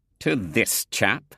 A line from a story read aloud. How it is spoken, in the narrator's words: sneered Theo